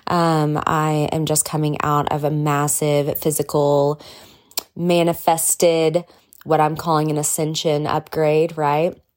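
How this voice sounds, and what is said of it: Slightly nasal, congested voice. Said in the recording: “I sound a little nasally.”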